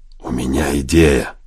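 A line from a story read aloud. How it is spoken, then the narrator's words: Lowered to a whisper. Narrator (Russian): Мейсон понизил голос до шепота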